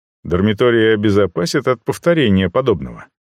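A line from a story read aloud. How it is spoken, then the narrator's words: Plain. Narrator (Russian): спросил я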